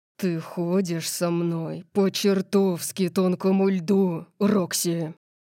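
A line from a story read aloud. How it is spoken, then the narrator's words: Growled. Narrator (Russian): прорычал он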